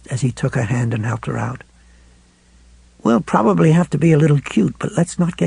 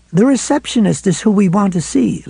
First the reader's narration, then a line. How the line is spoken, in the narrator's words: Lois said cheerfully